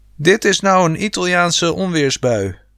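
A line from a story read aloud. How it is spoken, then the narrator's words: Shouting. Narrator (Dutch): schreeuwde pa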